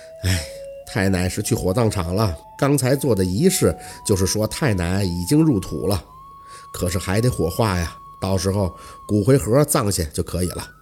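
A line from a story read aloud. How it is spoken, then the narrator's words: Sighing. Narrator (Chinese): 家树叹了一口气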